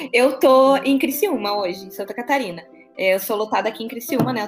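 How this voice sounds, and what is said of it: Strong Porto Alegre Brazilian accent. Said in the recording (Portuguese): “eu sou de Porto Alegre, né? sou do Rio Grande do Sul. Ah, Você pode perceber pelo meu sotaque nada fraco... É verdade, sotaque entrega... Eu sou bem porto-alegrense mesmo”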